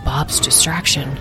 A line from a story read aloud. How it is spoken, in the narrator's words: murmured Asriel